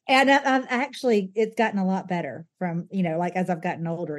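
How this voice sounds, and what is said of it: Noticeable regional accent. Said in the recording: “I just love your accent.”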